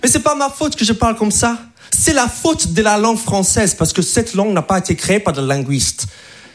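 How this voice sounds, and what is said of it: American accent speaking French. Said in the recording (French): “je suis pas français, je suis américain, donc je parle vraiment comme ça... C'est mon vrai accent. Je parle un peu comme le québécois”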